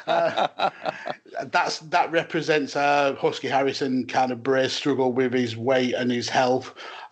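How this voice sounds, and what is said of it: Speaks with a noticeable accent. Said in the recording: “your accent, man”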